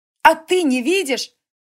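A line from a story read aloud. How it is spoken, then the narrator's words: Girl shouting. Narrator (Russian): крикнула девушка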